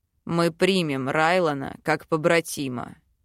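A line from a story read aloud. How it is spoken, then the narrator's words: Growled declaration. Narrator (Russian): заявляет Белоснежка с рычанием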